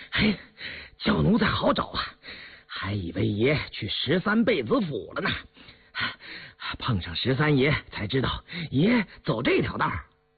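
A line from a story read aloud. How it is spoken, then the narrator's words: Breathless, panting. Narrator (Chinese): 戴铎打马飞奔而来，喘吁着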